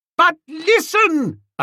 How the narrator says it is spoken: yelled

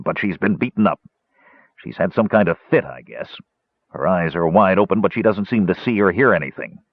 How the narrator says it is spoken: the captain said grimly

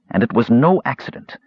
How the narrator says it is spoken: snapped Raistlin

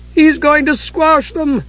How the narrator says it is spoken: Tass cried

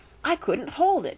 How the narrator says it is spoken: gasped Edmund

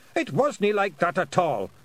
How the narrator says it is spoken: roared Rob Anybody

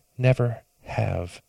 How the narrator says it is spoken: she whispered

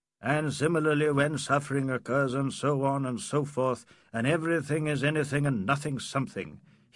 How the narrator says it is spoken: he muttered in his irritation

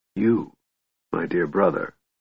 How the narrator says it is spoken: Raistlin said softly

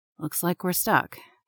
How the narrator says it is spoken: Patrick says calmly

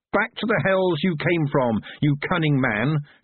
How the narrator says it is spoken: she yelled above the flames

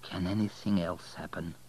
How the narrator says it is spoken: He muttered

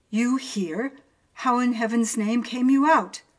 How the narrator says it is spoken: Both started as if I had been a ghost, and my uncle exclaimed

